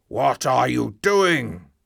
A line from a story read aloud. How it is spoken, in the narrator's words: shouted